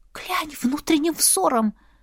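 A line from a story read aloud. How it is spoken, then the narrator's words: Faint, strained whisper. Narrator (Russian): Едва прошептала, так как говорить выходило с трудом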